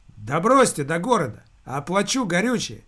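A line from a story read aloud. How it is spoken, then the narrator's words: Shout from doorway. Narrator (Russian): крикнул из дверного проема приезжий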